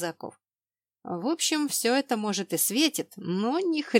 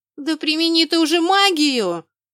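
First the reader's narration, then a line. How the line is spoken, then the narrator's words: Yelling. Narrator (Russian): завопила я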